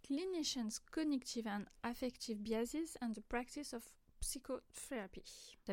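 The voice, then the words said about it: Half-English, half-French accent. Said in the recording (French): “T'as vu mon super accent moitié anglais, moitié français”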